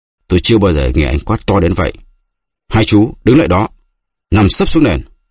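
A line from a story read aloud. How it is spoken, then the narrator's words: Barked order. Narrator (Vietnamese): anh Ngọc quát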